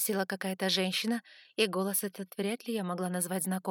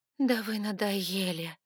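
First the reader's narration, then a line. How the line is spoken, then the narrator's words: Weak breathy voice. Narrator (Russian): выдохнула я слабым до неузнаваемости голосом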